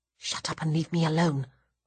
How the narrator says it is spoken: I mutter out of the corner of my mouth

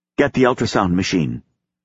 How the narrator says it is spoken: she said roughly

